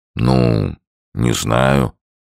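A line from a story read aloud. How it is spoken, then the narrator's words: Grumbling. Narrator (Russian): проворчал Сомс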